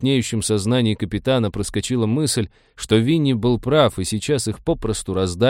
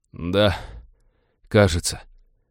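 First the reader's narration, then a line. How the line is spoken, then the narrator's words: Hoarse wheeze. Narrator (Russian): просипел смутно напоминавший Винни красноглазый уродец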